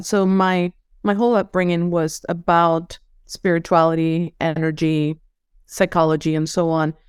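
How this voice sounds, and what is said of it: Venezuelan-accented English. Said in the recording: “You probably will hear an accent. I'm from Venezuela”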